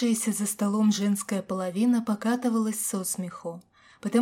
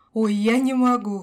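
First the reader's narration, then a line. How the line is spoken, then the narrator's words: Laughing loudly. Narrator (Russian): хохотала Аня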